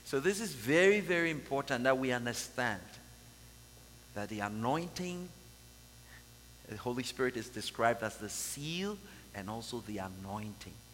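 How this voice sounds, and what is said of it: Speaks English with an accent. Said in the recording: “Forgive me for my accent.”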